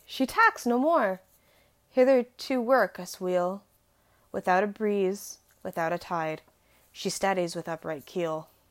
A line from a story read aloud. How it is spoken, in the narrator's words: cried